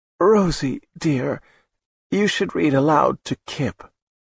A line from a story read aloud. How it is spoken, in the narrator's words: Dorothy spoke in a frail voice